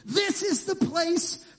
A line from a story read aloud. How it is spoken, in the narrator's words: Frank announced triumphantly